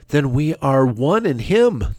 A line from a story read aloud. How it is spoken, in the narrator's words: they cried in gladness